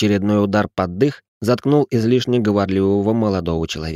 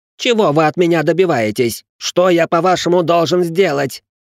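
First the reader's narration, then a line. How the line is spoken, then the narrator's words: Yelling while spitting blood. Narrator (Russian): завопил Ричард, сплёвывая кровь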